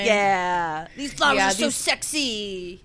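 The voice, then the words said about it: Imitates a character's voice. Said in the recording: “that's my Jen impression.”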